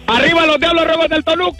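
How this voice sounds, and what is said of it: Shouting loudly. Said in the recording (Spanish): “¡No grites, güey! ... ¡ ... no grites!”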